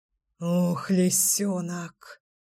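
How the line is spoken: Ragged exhale. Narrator (Russian): Рвано выдохнул Гром

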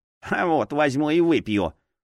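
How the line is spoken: Snorting. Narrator (Russian): фыркнул кукольник

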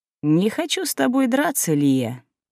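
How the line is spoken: Insinuating, ingratiating. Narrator (Russian): вкрадчиво добавил

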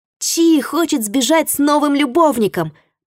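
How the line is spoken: Shouted. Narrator (Russian): прокричал он

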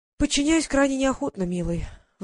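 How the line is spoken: Sighed. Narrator (Russian): вздохнула

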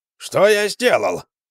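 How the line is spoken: Exclamation. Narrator (Russian): воскликнул Акимас

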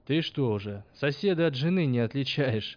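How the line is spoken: Laughing. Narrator (Russian): Засмеялся помнящий

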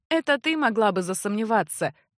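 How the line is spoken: Open laughter. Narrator (Russian): откровенно засмеялся Эгрис

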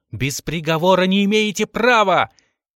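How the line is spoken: Shouted. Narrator (Russian): он крикнул

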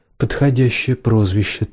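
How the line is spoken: Quiet reply. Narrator (Russian): также тихо отозвалась Сиена

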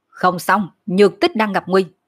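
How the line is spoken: Sudden alarmed shout. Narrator (Vietnamese): bỗng nhiên hắn chợt biến sắc quát

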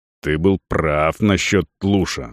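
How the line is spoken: Angry growl. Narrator (Russian): зло рыкнул стражник

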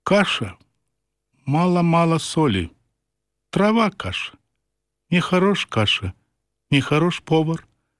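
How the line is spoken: Quiet, indifferent tone. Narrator (Belarusian): ён ранейшым ціхавата-абыякавым тонам кажа

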